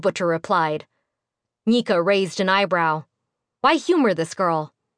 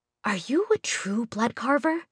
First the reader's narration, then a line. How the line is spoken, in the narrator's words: the girl asked, leaning close enough to whisper